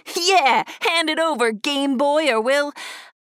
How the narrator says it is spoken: Ducky laughed and added

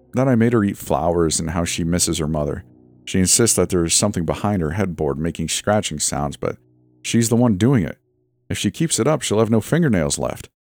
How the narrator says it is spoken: he said with a sigh

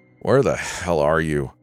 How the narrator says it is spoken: I groaned

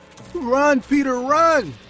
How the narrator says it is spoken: yelling

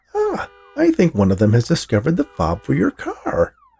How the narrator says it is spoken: Max exclaimed

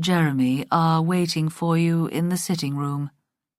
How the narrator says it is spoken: he said stiffly

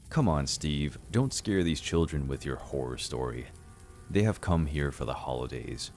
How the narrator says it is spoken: Grandma said in a serious tone

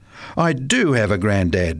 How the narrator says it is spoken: replied Paul hotly

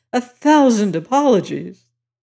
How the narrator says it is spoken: he cried remorsefully

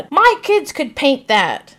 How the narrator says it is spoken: stands in front of a store and screams out

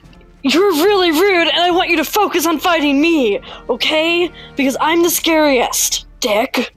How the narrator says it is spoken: shout at him

